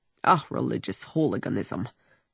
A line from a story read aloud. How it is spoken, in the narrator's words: Lunacharsky muttered darkly